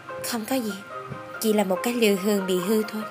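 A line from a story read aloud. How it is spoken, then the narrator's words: Soft laughing reply. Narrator (Vietnamese): Ta khẽ cười đáp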